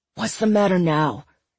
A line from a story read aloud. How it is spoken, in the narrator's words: Jaeger whispered